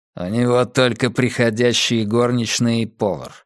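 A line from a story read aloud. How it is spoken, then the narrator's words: Snorting. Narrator (Russian): хмыкнул Каз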